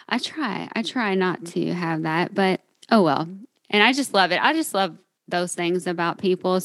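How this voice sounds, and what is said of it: Southern US (Kentucky) accent. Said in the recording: “I'm sure you can tell that I'm from Kentucky. ... My Southern accent.”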